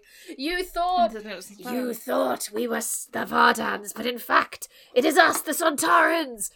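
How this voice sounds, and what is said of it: Alien character voice impression. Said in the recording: “my best Sontaran impression, unfortunately. ... I could hear the tongue.”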